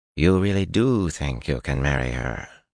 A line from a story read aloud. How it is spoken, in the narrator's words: Eginin muttered